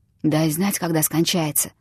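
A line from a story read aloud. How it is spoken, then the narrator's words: Whisper. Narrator (Russian): шепнул Становой Перфишке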